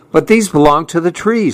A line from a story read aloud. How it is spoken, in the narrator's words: said Fletcher